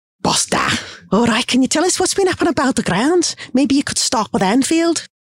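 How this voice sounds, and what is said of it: Put-on Liverpool Scouse accent. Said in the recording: “try out the Liverpool accent I learnt off the Scouser”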